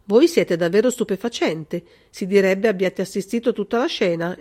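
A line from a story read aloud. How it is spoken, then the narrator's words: Exclaimed. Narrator (Italian): esclamò il colonnello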